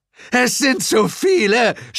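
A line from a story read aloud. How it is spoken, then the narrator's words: Shout. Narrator (German): schrie Suko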